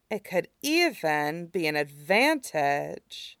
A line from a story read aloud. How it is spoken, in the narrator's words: Azula murmured, mind racing